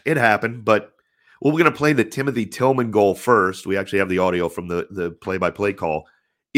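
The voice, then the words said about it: Stuffed-up, congested voice. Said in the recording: “as you can kind of hear, I'm recovering ... I get stuffed up ... Come in all stuffed up.”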